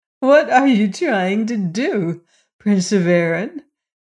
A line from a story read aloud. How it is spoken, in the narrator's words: she asked, dimpling with laughter